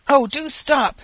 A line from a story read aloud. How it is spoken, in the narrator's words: exclaimed an old woman